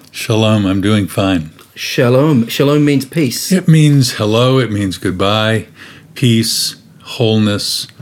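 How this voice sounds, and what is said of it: American accent. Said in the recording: “I can tell from your accent that possibly you lived elsewhere uh, earlier. The U.S. is that right?”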